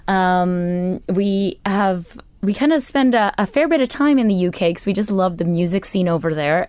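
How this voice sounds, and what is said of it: Non-local foreign accent. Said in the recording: “I can tell from your accents you are from much further afield.”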